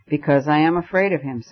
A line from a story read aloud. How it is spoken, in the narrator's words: said Syme